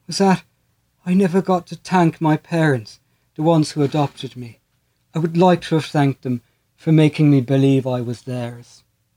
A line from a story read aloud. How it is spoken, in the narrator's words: said, her voice faltering